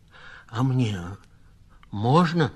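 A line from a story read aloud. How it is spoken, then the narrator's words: Stammering request. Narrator (Russian): запинаясь, попросил Сазонка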